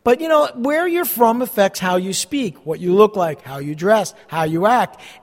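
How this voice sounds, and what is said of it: New Jersey accent. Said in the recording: “if you're from the Northeast, and specifically from this area, New Jersey, we have an accent.”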